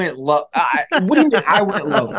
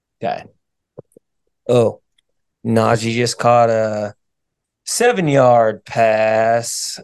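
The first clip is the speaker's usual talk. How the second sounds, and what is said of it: Low, sultry voice. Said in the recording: “Let me give you my sexy voice ... Why don't you instantly go low? ... you went low too”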